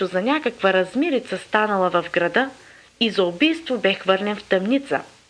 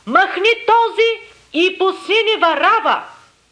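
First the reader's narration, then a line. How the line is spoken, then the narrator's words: Crowd screaming in unison. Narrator (Bulgarian): всички единогласно изкрещяха, казвайки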